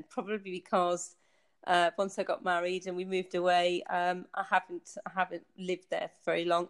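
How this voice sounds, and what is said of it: Soft lilting northern English accent. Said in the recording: “you have a very soft sort of lilting accent ... I have got a softer accent”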